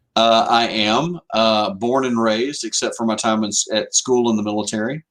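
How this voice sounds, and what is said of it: Southern drawl. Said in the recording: “Your draw is different.”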